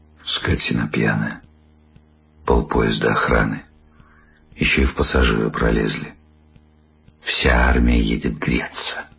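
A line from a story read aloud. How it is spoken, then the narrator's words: Quiet. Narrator (Russian): Жена тихо сказала вслед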